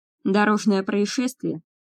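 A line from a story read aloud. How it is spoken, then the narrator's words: Snorting hmph. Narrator (Russian): хмыкнул Джордж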